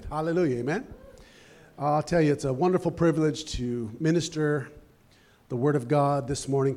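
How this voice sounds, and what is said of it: Slightly hoarse, strained voice. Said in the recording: “I've lost my voice a little bit already”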